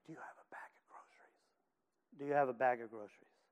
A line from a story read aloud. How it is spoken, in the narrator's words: He pulled me over in close and whispered